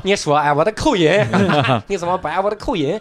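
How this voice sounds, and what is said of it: Put-on Shandong dialect accent. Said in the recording (Chinese): “我会一两句山东话 ... 我说这不就是一个山东人说了一句话吗？ ... 这是方言的模仿”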